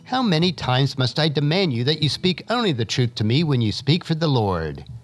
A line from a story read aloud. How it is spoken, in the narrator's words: the king replied sharply